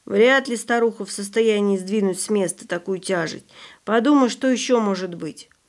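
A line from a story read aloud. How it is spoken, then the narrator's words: Bored, displeased grumbling. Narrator (Russian): Павлику уже наскучило на чердаке, где ничего интересного не оказалось, и он недовольно поворчал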